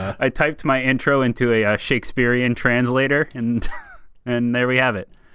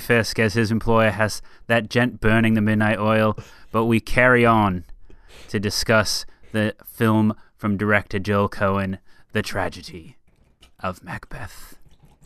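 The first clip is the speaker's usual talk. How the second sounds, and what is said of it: Fairly average put-on English accent. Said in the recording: “just did a fairly average English accent”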